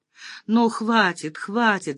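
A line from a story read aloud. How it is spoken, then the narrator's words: Pleading. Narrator (Russian): взмолилась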